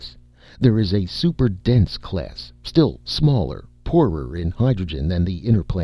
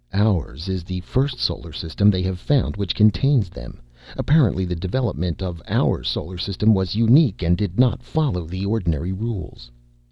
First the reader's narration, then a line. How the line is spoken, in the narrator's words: The astronomer said softly